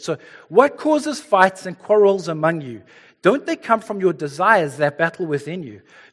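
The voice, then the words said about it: Speaks with a noticeable accent. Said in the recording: “If you can bear with the accent”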